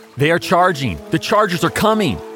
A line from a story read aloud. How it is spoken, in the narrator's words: a messenger yells